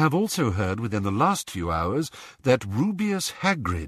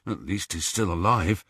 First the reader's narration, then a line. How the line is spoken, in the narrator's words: muttered Ron